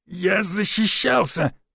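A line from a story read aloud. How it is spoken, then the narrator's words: Choked hoarse reply. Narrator (Russian): прохрипел я в ответ, ибо натянутый ворот рубахи сдавливал шею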